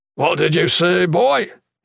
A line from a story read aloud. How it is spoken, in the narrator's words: he inquired gruffly